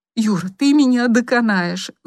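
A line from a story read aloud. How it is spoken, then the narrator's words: Female moan. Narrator (Russian): застонала она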